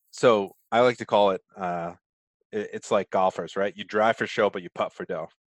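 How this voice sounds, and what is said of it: Rhode Island accent. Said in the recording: “my Rhode Island accent's coming in there. So it's chunker, not chunka, but sorry for the accent.”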